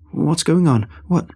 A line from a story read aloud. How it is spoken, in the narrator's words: tried to stammer out a question, feeling breathless